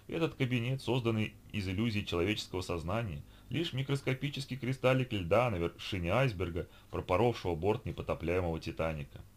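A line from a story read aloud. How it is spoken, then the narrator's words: Even, level voice. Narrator (Russian): ровным голосом произнес собеседник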